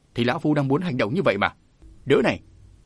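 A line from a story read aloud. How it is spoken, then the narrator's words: Roaring. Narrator (Vietnamese): lão Hoa mới gầm lên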